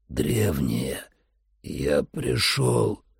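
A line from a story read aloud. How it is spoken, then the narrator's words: Dry-mouthed hoarse croak. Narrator (Russian): прохрипел я пересохшим ртом, не желающим издавать звуков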